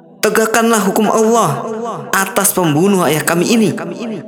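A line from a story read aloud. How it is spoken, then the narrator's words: Crying out. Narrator (Indonesian): ujar salah satu berseru-seru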